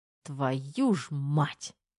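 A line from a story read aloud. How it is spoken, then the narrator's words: Muttered through teeth. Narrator (Russian): процедил Терехов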